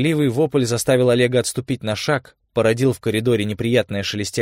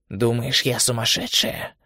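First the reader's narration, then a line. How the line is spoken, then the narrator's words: Quiet, near whisper. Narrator (Russian): спросила она тихо, почти шепотом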